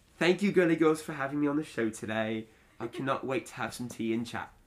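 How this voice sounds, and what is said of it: Put-on British accent. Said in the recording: “Do your best British accent. ... That was excellent.”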